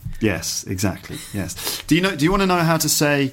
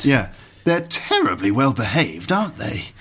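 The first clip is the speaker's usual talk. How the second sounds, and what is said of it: Very posh voice. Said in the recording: “That's a very posh one... in a very posh accent... in a very, very posh voice”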